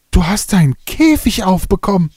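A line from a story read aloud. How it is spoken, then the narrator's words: Macaw's call. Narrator (German): rief der Ara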